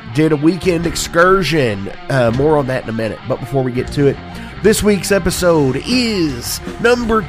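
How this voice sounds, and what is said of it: Slightly hoarse voice. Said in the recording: “as you can tell by the sound of my voice ... I am a little hoarse. I'm a little under the weather.”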